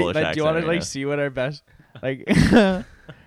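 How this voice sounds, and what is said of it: Usual voice. Nothing is said of it.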